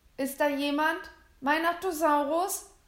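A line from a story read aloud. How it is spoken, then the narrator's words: Called out. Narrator (German): rief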